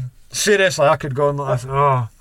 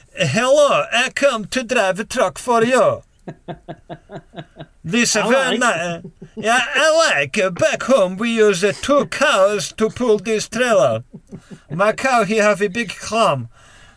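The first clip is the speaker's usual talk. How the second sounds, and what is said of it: Borat-style foreign accent. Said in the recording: “I'm already having difficult times not doing Borat accents”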